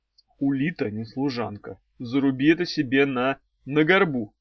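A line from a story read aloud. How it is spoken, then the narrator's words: Quiet speech. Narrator (Russian): негромко сказал Арей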